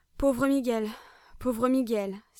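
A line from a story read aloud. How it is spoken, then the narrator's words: Sudden exclamation. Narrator (French): s'écria-t-il tout d'un coup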